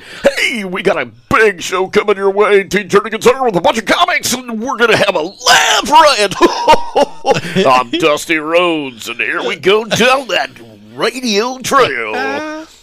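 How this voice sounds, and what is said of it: Exaggerated put-on radio announcer voice. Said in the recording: “A radio voice is like this. It's all put on ... that's a radio voice”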